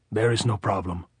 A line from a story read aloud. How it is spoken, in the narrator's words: Augustine said